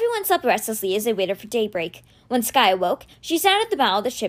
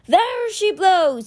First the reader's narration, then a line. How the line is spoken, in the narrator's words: cried